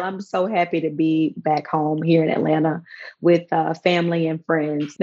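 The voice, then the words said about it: Slightly hoarse voice. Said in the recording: “I'm a little hoarse today from cheering for my team on Sunday.”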